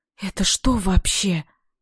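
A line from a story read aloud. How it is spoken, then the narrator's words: Whispered. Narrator (Russian): прошептала я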